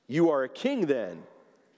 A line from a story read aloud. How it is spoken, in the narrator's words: Pilate said